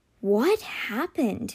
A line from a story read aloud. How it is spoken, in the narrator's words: he whispered